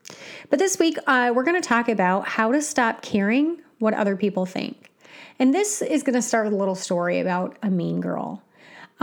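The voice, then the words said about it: Slightly raspy voice. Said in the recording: “My throat is just a little raspy.”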